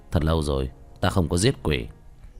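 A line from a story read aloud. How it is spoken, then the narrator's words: Thin mocking smile. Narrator (Vietnamese): Tiểu Thất liếm môi, cười nhạt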